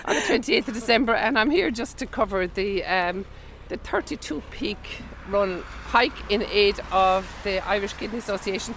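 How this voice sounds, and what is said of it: Congested voice, not at its best. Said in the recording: “I've got a bit of a cold, for my voice isn't great.”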